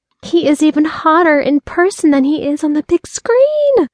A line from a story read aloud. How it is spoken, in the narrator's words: squealed